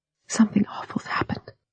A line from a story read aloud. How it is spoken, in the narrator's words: she whispered